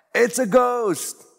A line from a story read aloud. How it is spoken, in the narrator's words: In their fear, they cried out